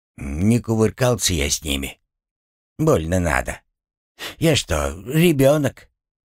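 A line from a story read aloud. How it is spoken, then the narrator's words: Uncertain. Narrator (Russian): Неуверенно проговорил он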